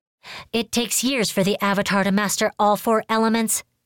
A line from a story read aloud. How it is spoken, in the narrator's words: Rongi snapped